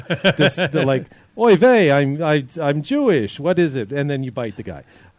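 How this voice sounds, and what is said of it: Put-on 1950s Catskills Jewish accent. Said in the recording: “That's my Stan Friedman Catskills Jewish accent from the 1950s.”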